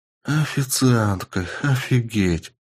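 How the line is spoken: Breathless exclamation. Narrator (Russian): Выдохнула Полина

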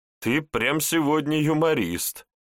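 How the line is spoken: Laughing hard. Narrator (Russian): согнулась пополам от хохота Машка

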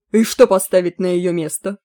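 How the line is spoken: Sharp objection. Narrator (Russian): резко возразил Курои

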